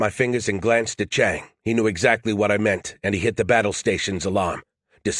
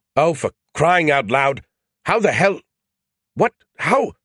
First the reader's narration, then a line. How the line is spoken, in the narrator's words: Skippy sputtered to a stop, speechless